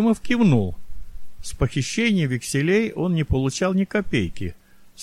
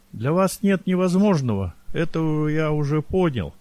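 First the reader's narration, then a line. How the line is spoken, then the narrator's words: Shaky, gasping sigh. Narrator (Russian): Кротов судорожно вздохнул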